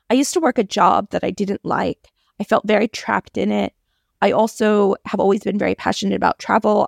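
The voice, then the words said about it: American accent. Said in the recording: “my lovely accent, I grew up in the US, but I have been living in Australia for almost 20 years”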